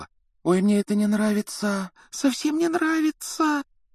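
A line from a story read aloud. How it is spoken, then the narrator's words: Frightened whisper. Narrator (Russian): Гермиона испуганно шептала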